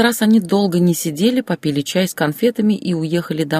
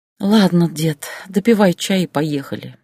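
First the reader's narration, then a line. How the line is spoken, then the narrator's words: Sighing. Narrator (Russian): вздохнула Татьяна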